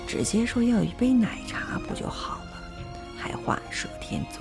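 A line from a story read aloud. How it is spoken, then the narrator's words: Embarrassed muttering. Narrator (Chinese): 布满红晕的脸，那个时候的你在我背后嘀咕着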